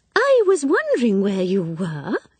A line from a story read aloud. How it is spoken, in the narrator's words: said Miss Prescott, looking up brightly